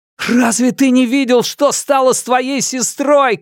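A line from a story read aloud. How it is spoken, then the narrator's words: Shouting. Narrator (Russian): крикнул я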